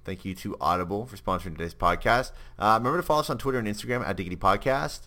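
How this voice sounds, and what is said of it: Canadian English accent. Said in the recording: “It's a play on the fact that I'm Canadian. You haven't guessed that already from my accent.”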